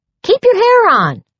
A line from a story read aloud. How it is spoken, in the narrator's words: snapped